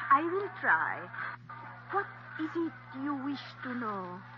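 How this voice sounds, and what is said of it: Phony fortune-teller accent. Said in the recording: “Cut the phony accent”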